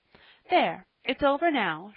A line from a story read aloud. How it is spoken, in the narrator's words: she cried